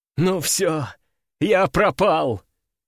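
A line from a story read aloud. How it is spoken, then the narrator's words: Doomed sigh, young man. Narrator (Russian): обреченно вздохнул парень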